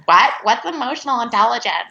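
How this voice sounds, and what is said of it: Imitates another person's voice. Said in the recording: “great impersonation”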